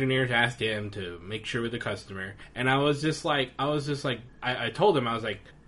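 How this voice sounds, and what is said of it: Usual voice. Nothing is said of it.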